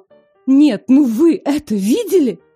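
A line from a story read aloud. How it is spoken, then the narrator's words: Indignant exclamation. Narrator (Russian): Тут же перевела дух, пытаясь справиться с возмущением, и воскликнула снова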